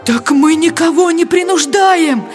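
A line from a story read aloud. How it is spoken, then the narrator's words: Pleading voice. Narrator (Russian): Взмолился голос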